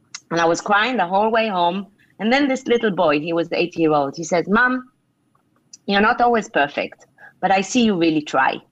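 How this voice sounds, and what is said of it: Emotional, choked-up voice. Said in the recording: “getting emotional.”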